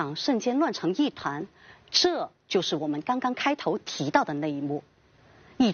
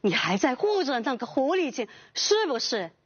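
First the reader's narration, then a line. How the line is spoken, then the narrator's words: Shouting. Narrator (Chinese): 孙秀则大喊道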